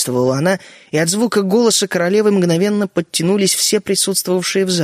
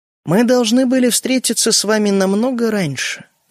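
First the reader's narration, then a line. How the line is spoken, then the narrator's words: Calm continuing. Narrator (Russian): продолжала королева спокойно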